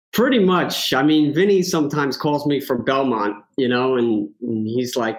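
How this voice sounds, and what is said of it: Thick New York accent. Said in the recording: “you can tell by the accent ... the thick New York accent”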